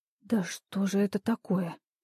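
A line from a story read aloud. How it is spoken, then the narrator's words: Whispered question. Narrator (Russian): шепотом спросила Иванова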